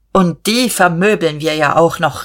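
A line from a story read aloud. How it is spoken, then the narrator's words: Calling out. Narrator (German): rief Dietrich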